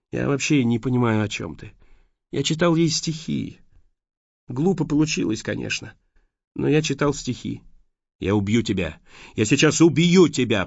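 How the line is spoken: Hoarse rasp. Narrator (Russian): прохрипел Майкл

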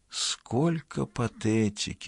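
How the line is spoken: Mother's hissing whisper. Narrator (Russian): свистящим шепотом произнесла мать Шиван

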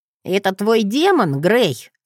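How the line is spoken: Snorting scornful. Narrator (Russian): фыркнул Джет

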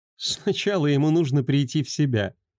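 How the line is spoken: Girl laughing. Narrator (Russian): рассмеялась девушка

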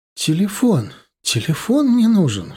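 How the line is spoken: Sharp cry. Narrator (Russian): вскрикнула Марина

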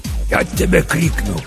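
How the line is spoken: Hiss through teeth. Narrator (Russian): прошипел сквозь зубы папа Сатырос

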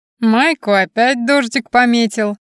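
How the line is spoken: Laughing from above. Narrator (Russian): хохотнули сверху

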